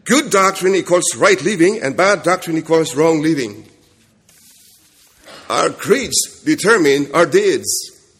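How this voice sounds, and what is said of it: Kentucky accent. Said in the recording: “my Kentucky accent is somewhat difficult for you to”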